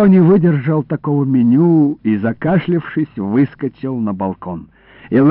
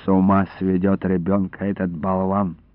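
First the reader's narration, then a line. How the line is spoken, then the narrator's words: Old woman muttering. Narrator (Russian): пробормотала бабушка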